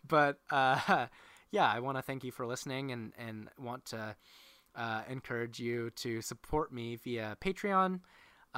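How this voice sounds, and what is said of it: Hoarse voice. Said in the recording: “my voice is really hoarse”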